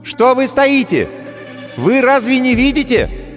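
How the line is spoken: Witch shouting. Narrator (Russian): вновь крикнула ведьма

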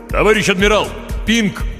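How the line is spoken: Mental shout. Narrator (Russian): мысленно крикнул Хор

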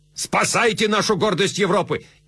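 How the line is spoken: Shouted. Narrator (Russian): Меттерних крикнул

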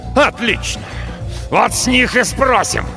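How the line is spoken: Spluttering, enraged snarl. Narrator (Russian): Сорокин рычал, брызгая слюной, сдавшись на милость душившей его злобы

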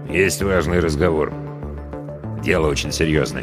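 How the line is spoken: Quiet, close. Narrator (Russian): тихо добавил

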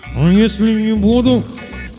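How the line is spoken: Muffled through tape. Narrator (Russian): попытался выдавить я сквозь скотч

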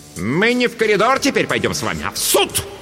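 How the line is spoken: Barking. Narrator (Russian): рявкнула Дурцева

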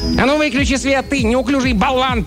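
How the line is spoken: Sharp shout. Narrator (Russian): прикрикнул на него один из человечков

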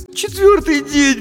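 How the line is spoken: Sobbing. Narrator (Russian): всхлипнула Дженни

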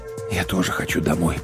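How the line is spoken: Whisper. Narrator (Russian): прошептал

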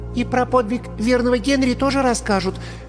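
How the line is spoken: Shy schoolgirl's squeak. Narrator (Russian): пискнула голенастая школьница, покраснев от собственной смелости

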